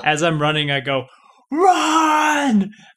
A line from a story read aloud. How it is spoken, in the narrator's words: I yell it